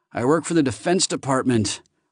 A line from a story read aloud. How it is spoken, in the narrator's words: Archie gasped